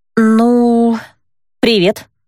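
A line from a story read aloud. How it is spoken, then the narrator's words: Uncertain, hesitant. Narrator (Russian): неуверенно произнесла я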